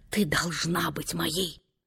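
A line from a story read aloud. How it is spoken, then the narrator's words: Whisper. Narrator (Russian): этим шепотом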